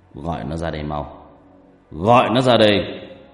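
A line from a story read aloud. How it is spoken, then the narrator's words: Loud angry shout. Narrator (Vietnamese): Sau tiếng quát lớn của Kiên Bạc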